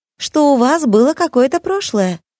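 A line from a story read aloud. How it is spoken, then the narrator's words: Joyful. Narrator (Russian): радостно поведала Настя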